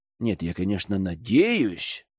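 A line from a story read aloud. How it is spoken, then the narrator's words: Mutter. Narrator (Russian): пробормотал Герман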